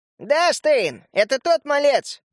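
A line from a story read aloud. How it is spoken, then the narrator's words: Nasty squeaky voice. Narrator (Russian): пропищал своим мерзким голосом Клоп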